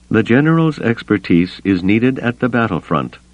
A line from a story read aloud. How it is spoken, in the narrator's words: Mon Mothma said evenly